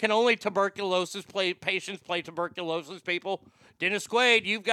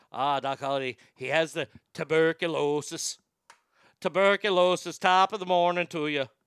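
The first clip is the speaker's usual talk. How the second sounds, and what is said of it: Put-on Irish accent. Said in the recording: “the old Irish accent”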